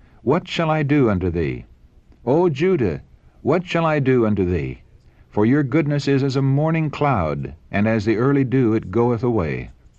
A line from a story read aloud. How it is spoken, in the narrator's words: he cried